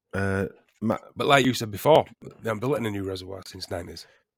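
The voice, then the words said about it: Croaky voice from a cold. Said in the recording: “I'm a little bit croaky tonight. I've noticed my voice is a bit croaky. I've got a bit of a cold. Got a bit of a head cold.”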